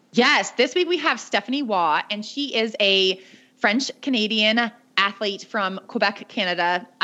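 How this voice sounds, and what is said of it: American accent. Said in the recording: “my accent is very American, not at all French Canadian”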